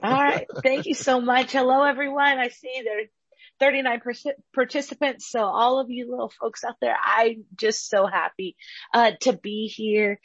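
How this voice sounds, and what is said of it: Worn, strained voice. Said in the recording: “Forgive my voice. We had really, really, really long and powerful praise and worship this morning.”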